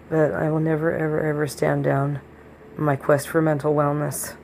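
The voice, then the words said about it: Hoarse, strained voice. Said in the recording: “I still need to be very careful with my voice... when I have laryngitis”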